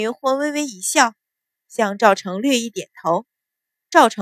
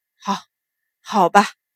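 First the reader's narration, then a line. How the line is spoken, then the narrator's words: Grudging, through gritted teeth. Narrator (Chinese): 秦鹏恨得咬牙，只得道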